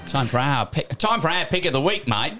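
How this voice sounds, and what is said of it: Weak put-on Australian accent. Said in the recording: “we need to do some work on that ... It doesn't matter if it's right ... an Aussie accent”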